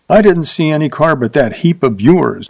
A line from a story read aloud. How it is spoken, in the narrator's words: she said sharply